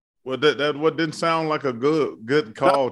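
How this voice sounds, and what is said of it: Larry David impression. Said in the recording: “That was my Larry David Curb Your Enthusiasm impression.”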